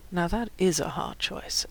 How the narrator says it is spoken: AJ purred

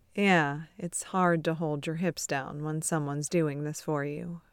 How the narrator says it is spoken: Beard murmurs

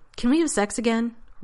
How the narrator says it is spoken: Rodney blurted finally

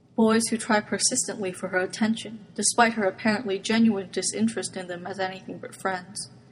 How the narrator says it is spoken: Yuko said, eyes knowing even while her tone was mild

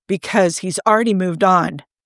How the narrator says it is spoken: Steve snapped, not really knowing that it was what he was going to say until it was already out of his mouth

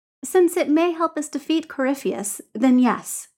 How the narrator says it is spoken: says Dorian

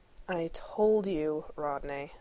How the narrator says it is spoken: Shepard drawled

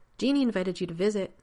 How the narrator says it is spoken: Rodney blurts out

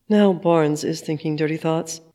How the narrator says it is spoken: Natasha mutters in an aside to Sam

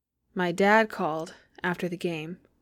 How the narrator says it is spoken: says Jack, his voice almost shaky with pride

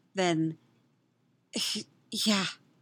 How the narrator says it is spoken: he says breathlessly

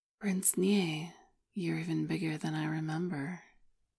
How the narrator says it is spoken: murmured

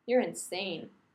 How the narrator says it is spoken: Rodney says flatly

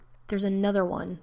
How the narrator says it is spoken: the wraith snarled

